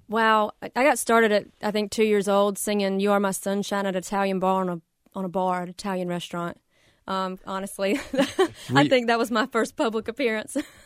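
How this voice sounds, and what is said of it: Slight Southern American twang. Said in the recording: “I have that twang ... I got that little southern twang for sure”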